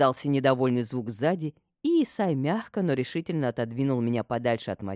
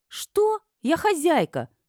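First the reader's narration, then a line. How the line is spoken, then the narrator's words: Indignant squeak. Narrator (Russian): пискнула я в возмущении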